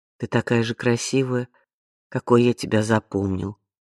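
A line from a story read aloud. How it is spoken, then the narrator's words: Plain. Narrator (Russian): сказал он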